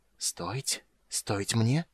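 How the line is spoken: Barely audible. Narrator (Russian): еле слышно повторил Рейстлин

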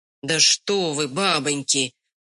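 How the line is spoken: Grumbling peasant man. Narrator (Russian): ворчал очередной мужик

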